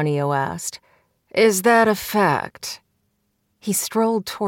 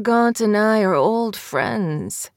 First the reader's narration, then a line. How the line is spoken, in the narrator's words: Ascanio purred